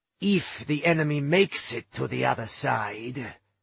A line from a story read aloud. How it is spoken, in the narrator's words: Bad War growled